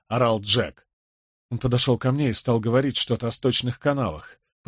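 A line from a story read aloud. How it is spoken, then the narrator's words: Stunned mumble. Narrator (Russian): пробормотал ошеломленный Николас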